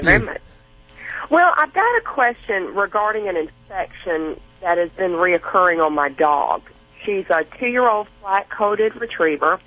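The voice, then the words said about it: Southern American accent. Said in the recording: “I love your accent. I love that Southern accent.”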